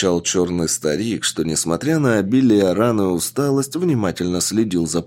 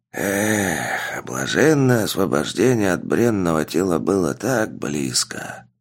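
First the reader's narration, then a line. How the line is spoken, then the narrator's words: Wounded old man muttering. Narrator (Russian): Пробормотал раненый старик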